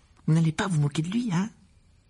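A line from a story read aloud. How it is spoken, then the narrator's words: Worried tone. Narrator (French): ajouta-t-elle d'un ton inquiet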